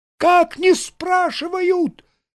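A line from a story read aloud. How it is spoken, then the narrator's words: Yelling. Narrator (Russian): завопил Саранин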